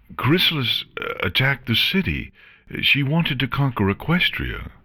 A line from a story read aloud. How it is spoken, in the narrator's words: Shining Armor mentioned, his voice faltering